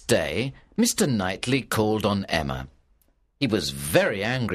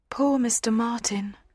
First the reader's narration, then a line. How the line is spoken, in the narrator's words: said Harriet sadly